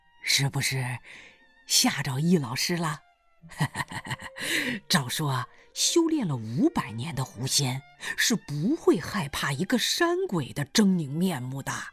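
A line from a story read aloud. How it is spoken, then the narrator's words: Smiling. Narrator (Chinese): 大胡子冲他笑笑说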